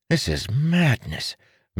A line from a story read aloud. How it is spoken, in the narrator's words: Marin muttered again